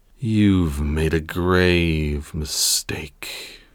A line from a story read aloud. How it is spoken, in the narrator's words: his voice was low and dark